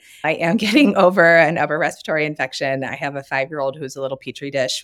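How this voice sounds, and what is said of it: Slightly raspy voice. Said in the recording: “I apologize for my voice. It's a little raspy.”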